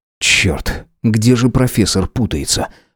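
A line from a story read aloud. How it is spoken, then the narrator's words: Muttering. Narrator (Russian): пробормотал я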